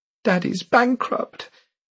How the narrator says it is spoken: Miriam said shakily

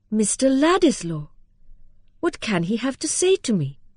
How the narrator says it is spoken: she exclaimed in a tone of pleased surprise

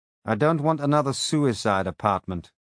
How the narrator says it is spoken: I said firmly

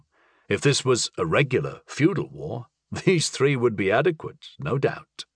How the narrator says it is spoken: I chuckled

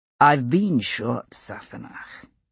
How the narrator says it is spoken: he said very dryly, more than once

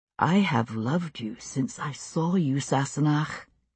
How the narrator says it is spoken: he said, very quietly

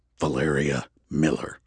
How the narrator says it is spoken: Andrew said, his voice eerily level and quiet

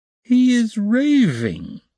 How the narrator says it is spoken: Razumihin cried tipsily

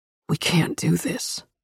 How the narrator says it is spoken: he whispered hoarsely

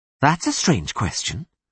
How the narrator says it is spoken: she said sharply

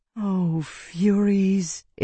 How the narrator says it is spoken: Isana said sadly

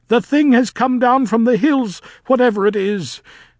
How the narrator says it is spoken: cried Nanny

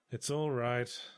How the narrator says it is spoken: I sighed

